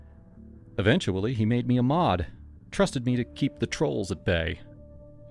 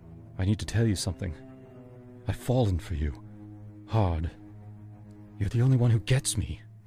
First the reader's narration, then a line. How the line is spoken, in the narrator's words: he said, his voice low and serious